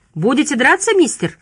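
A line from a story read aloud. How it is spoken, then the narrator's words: Shout. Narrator (Russian): крикнул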